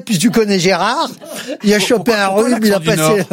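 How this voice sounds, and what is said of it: Put-on northern French accent. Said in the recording (French): “l'accent du Nord”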